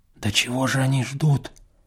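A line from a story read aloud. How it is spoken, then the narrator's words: Whispered question. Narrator (Russian): спросил я тоже шепотом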